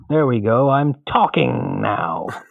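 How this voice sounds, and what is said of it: Imitates the Kingpin character's voice. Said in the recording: “I sound like the kingpin from Daredevil ... That was a very good impression.”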